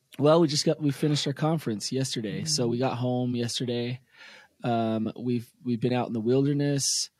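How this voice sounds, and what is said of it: Hoarse, tired, weakened voice. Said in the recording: “I'm exhausted... You can hear in my voice, I got half a voice this morning.”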